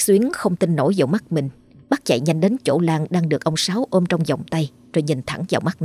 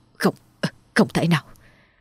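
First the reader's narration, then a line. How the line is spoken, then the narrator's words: Stammering in shock. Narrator (Vietnamese): miệng lắp bắp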